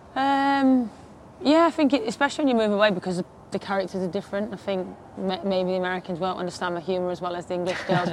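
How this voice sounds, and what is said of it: Thick regional accent. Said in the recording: “you've got a thick accent”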